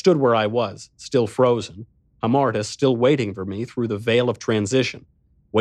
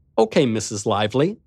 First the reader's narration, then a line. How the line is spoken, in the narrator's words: said Slick